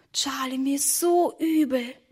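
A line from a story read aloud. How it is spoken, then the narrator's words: Whisper. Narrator (German): flüsterte Emma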